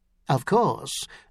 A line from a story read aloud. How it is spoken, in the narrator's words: Dragoner murmured